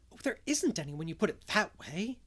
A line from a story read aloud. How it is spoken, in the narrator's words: gasped Anne, rather as if somebody had thrown cold water over her